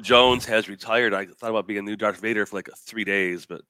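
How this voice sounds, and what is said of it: Deep, resonant cold-affected voice. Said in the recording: “nursing a bit of a cold ... you got a sweet radio voice now ... you sound now you sound just like him”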